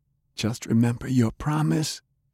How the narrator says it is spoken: whispered

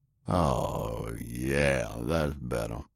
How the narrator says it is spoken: mumbled

